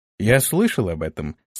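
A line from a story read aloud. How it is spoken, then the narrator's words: Calm objection. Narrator (Russian): спокойно возразил ему Антон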